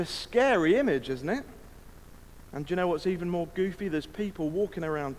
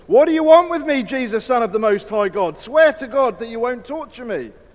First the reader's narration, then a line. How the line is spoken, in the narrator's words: shouted at the top of his voice